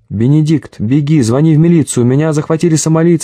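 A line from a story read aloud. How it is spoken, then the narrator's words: Yelling. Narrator (Russian): заорал Макашов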